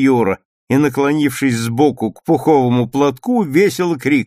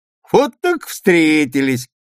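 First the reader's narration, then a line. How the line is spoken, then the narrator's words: Laughing loudly. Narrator (Russian): расхохотался Саша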